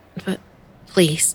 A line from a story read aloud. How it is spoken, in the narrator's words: I stammered